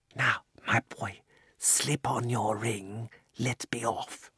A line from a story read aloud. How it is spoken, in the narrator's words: the old man put his mouth so close to Diggory's ear that it tickled and whispered